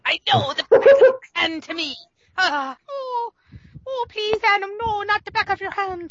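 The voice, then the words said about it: Put-on Irish brogue. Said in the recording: “I like the brogue there.”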